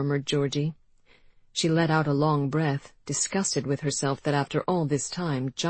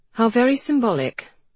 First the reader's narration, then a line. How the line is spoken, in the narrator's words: said Georgie dryly